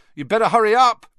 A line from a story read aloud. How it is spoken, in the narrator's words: Ron called loudly after her